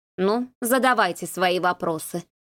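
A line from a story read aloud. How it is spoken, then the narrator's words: Sighing. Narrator (Russian): вздохнула она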